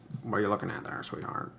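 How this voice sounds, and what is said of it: Bad Humphrey Bogart impression. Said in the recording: “that's a really bad impersonation of oh my god, why can't Humphrey, Humphrey Bogart?”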